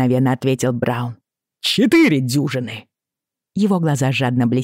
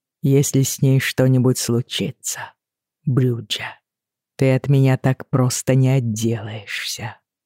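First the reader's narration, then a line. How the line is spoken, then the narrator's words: Cool, composed warning. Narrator (Russian): предупредил Джейми, хладнокровным тоном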